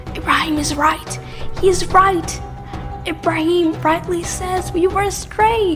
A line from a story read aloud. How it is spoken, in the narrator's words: Little by little, people started to whisper